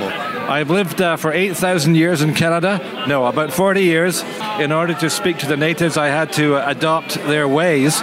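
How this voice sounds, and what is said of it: Glasgow Scottish accent. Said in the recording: “I detect a Glasgow accent there”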